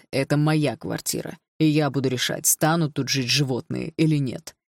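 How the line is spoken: Cold. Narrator (Russian): холодно сказал отчим

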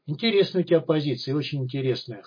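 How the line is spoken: Snort. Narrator (Russian): хмыкнул Исай

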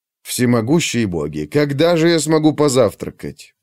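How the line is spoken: Grumbling under breath. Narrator (Russian): проворчал стратег себе под нос

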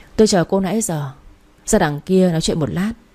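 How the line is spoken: Cold. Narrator (Vietnamese): lạnh lùng nói

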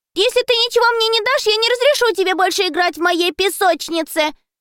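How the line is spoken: Shouted after someone. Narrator (Russian): крикнула ему вдогонку Мари

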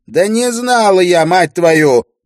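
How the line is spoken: Shout. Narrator (Russian): прокричала Ирия

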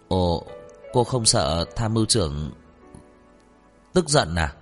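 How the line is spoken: Stammering. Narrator (Vietnamese): Chu Bằng lắp bắp

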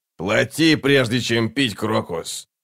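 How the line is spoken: Grumbling. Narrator (Russian): проворчал нахал

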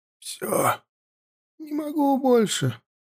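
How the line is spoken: Hoarse rasp. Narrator (Russian): прохрипел он

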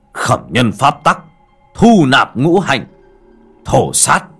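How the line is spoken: Loud chanting roar. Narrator (Vietnamese): Anh Duy miệng gầm lớn

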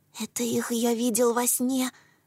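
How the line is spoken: Whisper. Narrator (Russian): прошептал он

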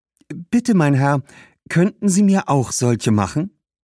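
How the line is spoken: Very friendly question. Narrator (German): fragte den Schuhmacher mit ihrer freundlichsten Stimme

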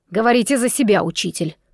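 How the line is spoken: Muttering grumble. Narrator (Russian): пробурчал Уцай

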